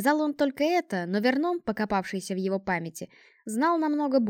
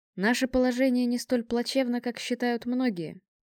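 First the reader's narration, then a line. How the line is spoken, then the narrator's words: Calm announcement. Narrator (Russian): спокойно объявил один из генералов флота, не связанных со специальным корпусом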